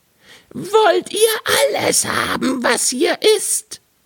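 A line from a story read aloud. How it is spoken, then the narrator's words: Screaming with full force. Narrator (German): schrie aber gleich aus Leibeskräften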